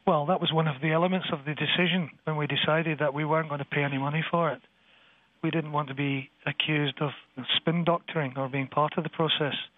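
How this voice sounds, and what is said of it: Scottish Glasgow accent. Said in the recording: “I notice you do have an accent. I'm trying to figure out which part of the Arab world that it's connected to. ... It's a well-known Arab capital called Glasgow. ... a Scotsman like you”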